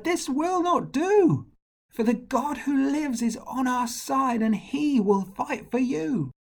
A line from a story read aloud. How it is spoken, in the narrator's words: he cried